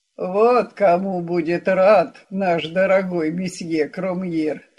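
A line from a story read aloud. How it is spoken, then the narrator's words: Through clenched teeth. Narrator (Russian): процедил Мегре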